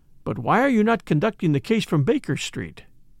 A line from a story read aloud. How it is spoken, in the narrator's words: I asked